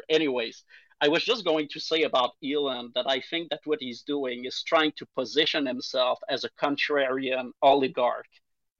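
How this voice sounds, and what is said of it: Strong French-Canadian accent. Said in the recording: “we're two French-Canadian on Twitter ... That is a deep ... accent you got there.”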